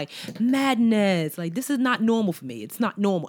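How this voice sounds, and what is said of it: Weak attempt at British accent. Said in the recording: “Was that your British accent? ... No, it's not good. ... You get an A for effort. ... this accent, you guys, is killing me.”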